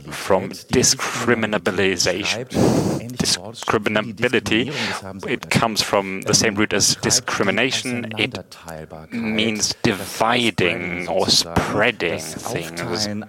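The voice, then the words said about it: Hoarse, croaky throat. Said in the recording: “I have a frog in my throat”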